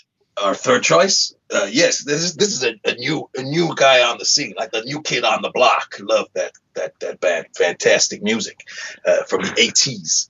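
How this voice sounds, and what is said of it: Wandering put-on accent. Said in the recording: “I'm not sure where my accent is going.”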